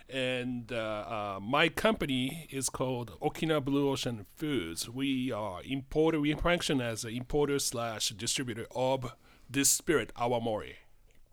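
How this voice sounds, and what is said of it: Japanese accent. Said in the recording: “As you recognize my accent, Japanese accent, I'm from near Tokyo”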